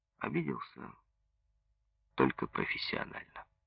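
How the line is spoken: Soft. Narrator (Russian): мягко сказал Лебедев

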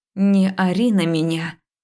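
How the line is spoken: Slow, through gritted teeth. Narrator (Russian): Медленно процедила я

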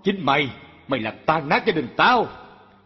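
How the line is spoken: Harsh bullying shout. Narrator (Vietnamese): ông chồng nạt nộ

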